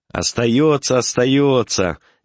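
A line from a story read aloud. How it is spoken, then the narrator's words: Cheerful shout. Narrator (Russian): весело закричал доктор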